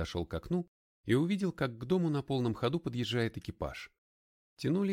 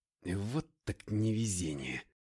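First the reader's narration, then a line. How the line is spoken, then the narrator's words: Grumbling mutter. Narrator (Russian): пробурчал я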